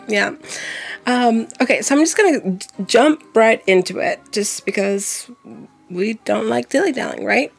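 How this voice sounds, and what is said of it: Strained, weird-sounding voice. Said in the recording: “my voice is all kinds of weird ... my throat's a little feeling it”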